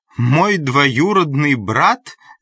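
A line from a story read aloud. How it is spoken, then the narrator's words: Exclaiming. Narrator (Russian): воскликнула она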